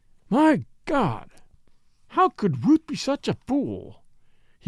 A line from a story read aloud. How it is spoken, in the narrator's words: he exclaimed bitterly